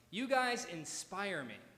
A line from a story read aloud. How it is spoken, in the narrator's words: said a teenager